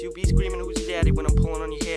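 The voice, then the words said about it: Eastern European–New Jersey accent rapping. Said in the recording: “What's the accent? ... It's so good. ... Eastern European that moved to New Jersey or something?”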